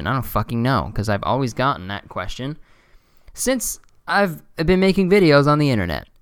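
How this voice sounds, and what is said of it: Monotone, tired-sounding voice. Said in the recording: “I'm very monotone and tired a lot”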